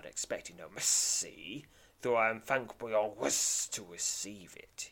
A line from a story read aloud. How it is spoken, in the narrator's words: he hisses